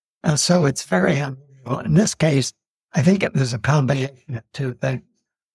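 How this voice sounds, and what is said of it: Hoarse, laryngitis-affected voice. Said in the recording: “sorry for my voice this morning, I've got a touch of laryngitis”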